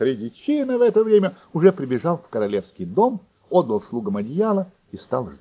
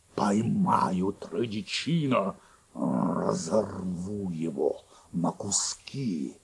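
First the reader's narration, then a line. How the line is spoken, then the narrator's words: Angry growl, grinding teeth. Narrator (Russian): Еще больше рассердился волк, зубами заскрипел, зарычал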